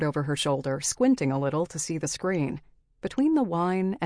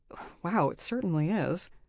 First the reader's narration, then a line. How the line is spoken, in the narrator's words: I muttered